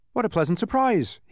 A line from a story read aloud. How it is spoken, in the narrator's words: cried happily